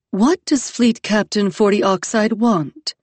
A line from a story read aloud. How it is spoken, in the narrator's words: Nine Hibiscus said, her voice gone very even, very serene